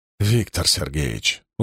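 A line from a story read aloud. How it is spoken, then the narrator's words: Tired. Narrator (Russian): устало сказал Чернышов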